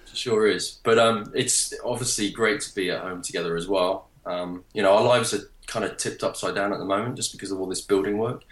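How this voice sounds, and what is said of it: English accent. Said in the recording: “you're obviously English, right? ... That delightful accent sounds very English.”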